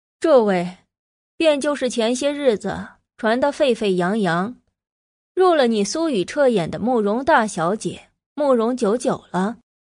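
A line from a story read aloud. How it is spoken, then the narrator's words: Half-smiling, pausing. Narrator (Chinese): 他似笑非笑的口气微微顿了顿，又道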